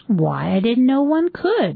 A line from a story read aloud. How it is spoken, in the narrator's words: exclaimed Mrs